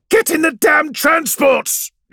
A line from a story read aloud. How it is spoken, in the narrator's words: she yells again